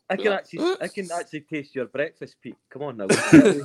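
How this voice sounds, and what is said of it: Put-on Finnish accent. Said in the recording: “was that your Finnish accent”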